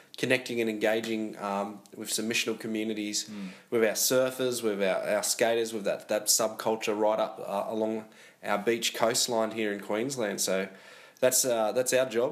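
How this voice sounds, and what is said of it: Australian accent. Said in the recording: “I love your accent ... I think you love ... I'm more of a New Zealand accent.”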